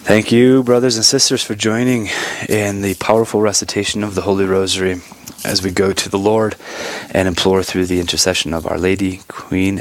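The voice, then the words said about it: Short of breath. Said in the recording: “hear it in my voice, but I might be sounding like I have a little short of breath ... I can't breathe ... shortness of breath.”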